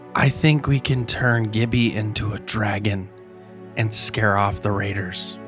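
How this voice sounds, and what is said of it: Whispering. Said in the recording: “Why are you whispering? ... why are you whispering?”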